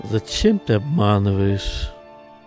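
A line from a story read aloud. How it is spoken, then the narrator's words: Sad question. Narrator (Russian): Печально спросил отец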